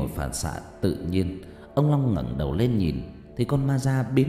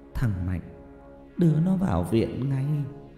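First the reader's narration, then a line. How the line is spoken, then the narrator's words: Trembling old woman. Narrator (Vietnamese): Bà Bích Thủy run rẩy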